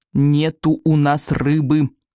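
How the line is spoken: Through gritted teeth. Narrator (Russian): повторил Икинг сквозь зубы

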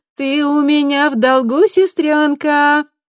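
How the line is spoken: Sing-song. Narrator (Russian): нараспев произнесла Камилла

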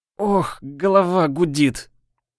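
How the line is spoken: Moaning witch. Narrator (Russian): простонала ведьма

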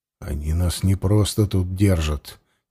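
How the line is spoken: Quiet, insistent. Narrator (Russian): тихо с нажимом заговорил Ворлыга

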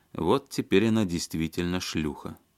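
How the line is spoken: Calm speech. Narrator (Russian): спокойно сказал Серебряков

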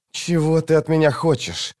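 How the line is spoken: Desperate hiss. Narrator (Russian): отчаянно зашипел Крокус

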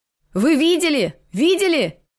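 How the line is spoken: Shouting across a field. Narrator (Russian): Дава кричал через все поле

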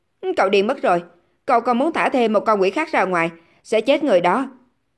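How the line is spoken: Composed man shouting. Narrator (Vietnamese): Trương Nhất Minh là một người trầm ổn, nhưng hiện tại anh ta cũng không nhịn được phải hét lên

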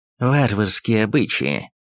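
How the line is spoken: Hissed. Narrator (Russian): прошипел шведский посол

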